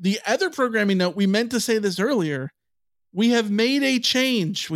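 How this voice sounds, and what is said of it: Usual voice. Nothing is said of it.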